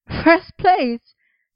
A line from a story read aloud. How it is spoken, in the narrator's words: he said, a little breathlessly, even as he bounced excitedly on his feet